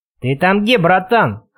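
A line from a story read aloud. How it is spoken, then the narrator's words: Hoarse bark from another room. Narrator (Russian): хрипло рявкнули из комнаты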